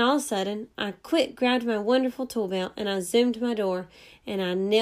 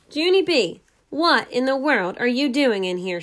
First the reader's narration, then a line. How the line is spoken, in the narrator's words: shouted